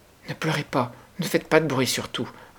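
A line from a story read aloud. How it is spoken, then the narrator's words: Pleading. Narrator (French): implora-t-elle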